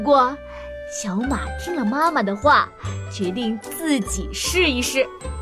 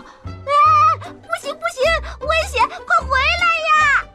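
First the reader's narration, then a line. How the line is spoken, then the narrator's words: Panicked shout, small squirrel. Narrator (Chinese): 小松鼠慌忙的喊道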